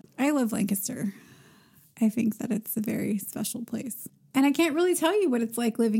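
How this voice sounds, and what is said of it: Usual voice. Nothing is said of it.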